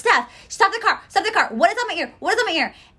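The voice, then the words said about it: Yelling, panicked. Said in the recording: “now I'm yelling at my friend”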